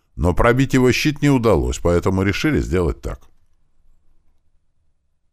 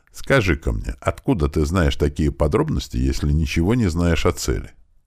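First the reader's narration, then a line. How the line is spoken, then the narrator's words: Calm, relaxed. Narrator (Russian): Напрягшийся было маг расслабился и спокойно сказал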